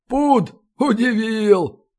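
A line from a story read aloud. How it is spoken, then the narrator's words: Scoffing grunt. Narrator (Russian): хмыкнул Балин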